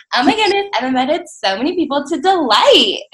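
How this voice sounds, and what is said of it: Imitated Valley Girl accent. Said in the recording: “in her Valley Girl accent.”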